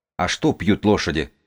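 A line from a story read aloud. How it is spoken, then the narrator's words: Plain question. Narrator (Russian): спросила Сибила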